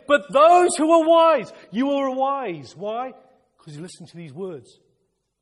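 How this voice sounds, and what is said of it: Excited shouting. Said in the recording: “I'm getting excited, excuse me. I'm shouting,”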